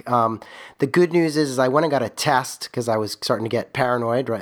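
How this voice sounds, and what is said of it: Croaky, partly lost voice. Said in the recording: “I'm a little under the weather, kind of lost my voice, and I still don't really have it back ... my croaky voice”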